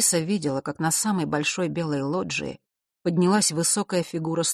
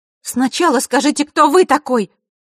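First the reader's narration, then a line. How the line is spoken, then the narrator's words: Loud. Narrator (Russian): громко произнесла Василиса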